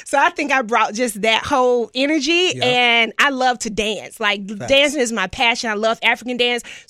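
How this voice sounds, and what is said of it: Southern country Atlanta accent. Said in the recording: “I'm from the SWAT. So I grew up right in Southwest Atlanta. You can hear this country accent.”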